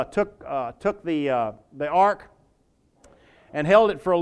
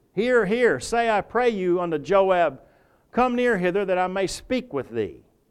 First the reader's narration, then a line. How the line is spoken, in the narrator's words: Then cried a wise woman out of the city